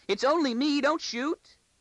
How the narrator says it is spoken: Arcadia wailed

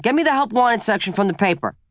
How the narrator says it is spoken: he yelled to my stepmom

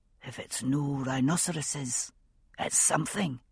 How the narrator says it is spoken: he said softly

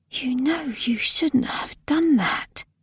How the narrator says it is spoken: She whispered slowly

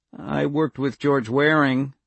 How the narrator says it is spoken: Jules said evenly

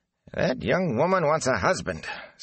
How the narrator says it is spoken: Senbui growled

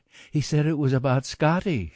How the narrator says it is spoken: she cried

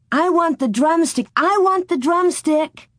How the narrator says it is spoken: Mary shouted

